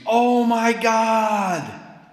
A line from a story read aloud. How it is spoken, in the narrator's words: the atheist screams